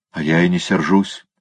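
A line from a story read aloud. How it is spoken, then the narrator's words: Grumbled. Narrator (Russian): пробурчал Николя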